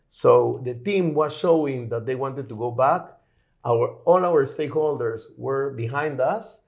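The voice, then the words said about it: Peruvian-accented English. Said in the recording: “You have an accent that Sounds familiar to me in my personal life, but maybe not to many, too many Israelis ... I'm originally from Lima, Peru.”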